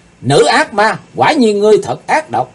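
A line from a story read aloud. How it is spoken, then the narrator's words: Shouting loudly. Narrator (Vietnamese): Chàng hét to lên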